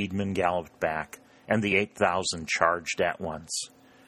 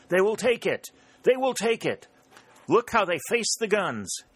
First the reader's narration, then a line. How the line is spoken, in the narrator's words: was shouting